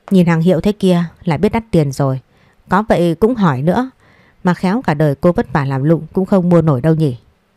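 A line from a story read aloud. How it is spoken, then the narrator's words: Mocking sarcasm. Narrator (Vietnamese): Bà Quyên mỉa mai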